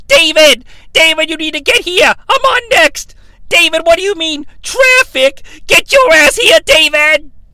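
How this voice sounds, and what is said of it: Yelling into a phone. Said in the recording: “he's yelling into it”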